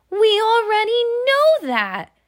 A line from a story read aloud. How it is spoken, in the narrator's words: shouted Taffy Morgan